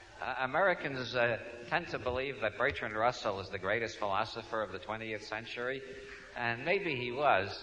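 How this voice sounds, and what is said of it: New York accent. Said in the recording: “As you can tell from my accent, I come from New York.”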